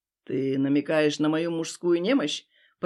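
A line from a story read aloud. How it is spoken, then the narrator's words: Growled. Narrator (Russian): прорычал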